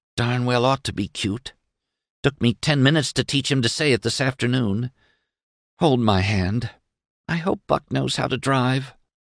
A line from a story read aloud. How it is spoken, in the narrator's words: To Doremus, Sissy whispered